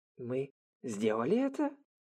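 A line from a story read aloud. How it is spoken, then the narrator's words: Weak whisper. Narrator (Russian): слабо прошептал Ранта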